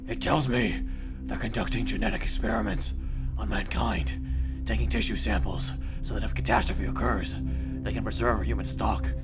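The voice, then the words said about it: Batman voice impression. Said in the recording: “you don't have to do the bat voice to me, sir ... I'm still in character”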